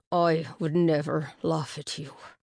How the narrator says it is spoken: he growled, making it seem more like a vow

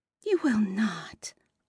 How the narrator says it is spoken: I whisper

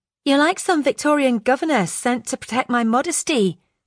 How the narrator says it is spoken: called out

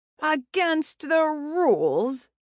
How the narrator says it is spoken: the blue man spat back

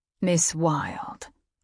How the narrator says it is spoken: Armaeus greeted me, his voice low and resonant

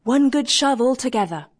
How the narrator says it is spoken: he cried

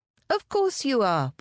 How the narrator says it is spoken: Bobby said cheerfully

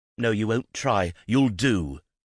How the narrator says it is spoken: Sally said firmly

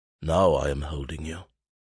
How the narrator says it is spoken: Ivar's voice rumbled within his broad chest

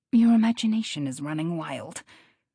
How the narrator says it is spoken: Grace replied quickly

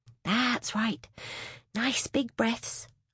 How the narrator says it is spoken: I whisper

